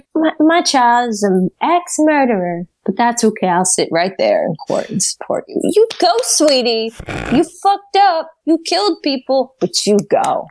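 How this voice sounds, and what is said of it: Doting mom voice. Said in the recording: “Is that your mom voice? I love it.”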